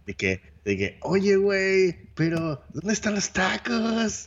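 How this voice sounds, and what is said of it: Exaggerated forced Mexican accent. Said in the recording (Spanish): “con el acento mexicano, así, súper forzado”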